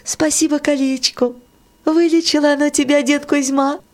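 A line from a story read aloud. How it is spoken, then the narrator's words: Laughing. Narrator (Russian): Варюша засмеялась … сказала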